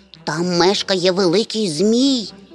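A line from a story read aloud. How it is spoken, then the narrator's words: Tiny creature's faint whisper. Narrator (Ukrainian): ледь чутно прошепотіло крихітне звірятко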